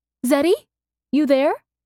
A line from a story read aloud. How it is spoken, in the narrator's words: Mercy called hopefully up the basement stairs